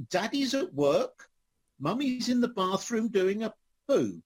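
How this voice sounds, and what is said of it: Very posh child's voice. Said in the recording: “in a very posh voice”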